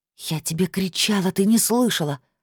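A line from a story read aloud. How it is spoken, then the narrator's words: Hissing. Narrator (Russian): прошипела Лилит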